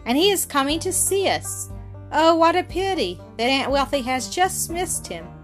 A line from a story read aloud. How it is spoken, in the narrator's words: exclaimed